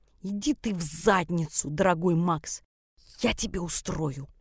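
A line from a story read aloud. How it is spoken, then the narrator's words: Hissing like a cobra. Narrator (Russian): Шипела на него, как заправская кобра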